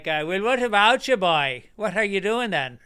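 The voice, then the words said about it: Put-on Irish Cork accent. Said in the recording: “Can you do an Irish accent? ... down in Cork, they sound like”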